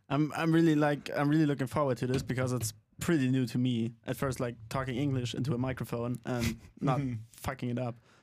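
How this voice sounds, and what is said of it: Slight German accent. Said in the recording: “has a little bit of an accent. ... welcome to you to the great country of Germany.”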